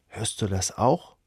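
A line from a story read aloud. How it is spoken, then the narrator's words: Whispered. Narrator (German): flüstert er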